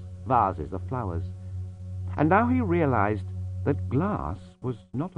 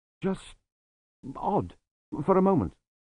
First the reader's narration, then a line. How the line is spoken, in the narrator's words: he mumbled